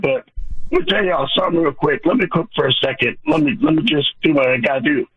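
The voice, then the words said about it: Hoarse, strained voice. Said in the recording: “my voice is tore up right now”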